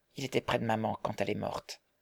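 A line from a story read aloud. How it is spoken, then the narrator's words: Softly. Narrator (French): dit doucement Marguerite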